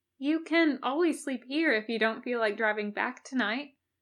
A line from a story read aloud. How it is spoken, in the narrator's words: the angel offered kindly